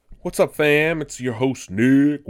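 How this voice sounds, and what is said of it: Deep booming bass voice. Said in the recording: “Imitating a subwoofer there.”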